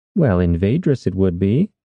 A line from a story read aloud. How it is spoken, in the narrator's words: Soria said